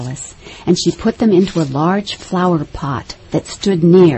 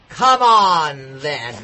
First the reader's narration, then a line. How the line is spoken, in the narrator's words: roared the queen